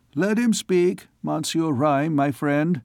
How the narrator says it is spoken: said the king

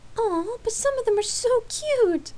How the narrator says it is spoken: Lark exclaimed with a laugh

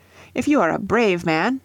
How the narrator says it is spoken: they cried

